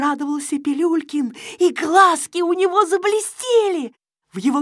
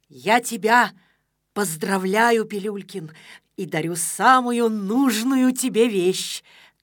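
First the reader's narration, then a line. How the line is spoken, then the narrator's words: Solemn. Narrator (Russian): торжественно произнес Незнайка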